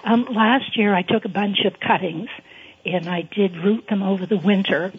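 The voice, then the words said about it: Strained, failing voice. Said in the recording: “excuse my voice ... Sorry about my voice. It just went on me.”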